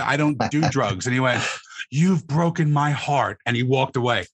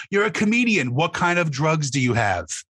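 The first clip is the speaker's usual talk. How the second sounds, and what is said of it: Inconsistent put-on British accent. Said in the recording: “went in and out of the accent there ... He started off in a British accent, but couldn't commit to the character.”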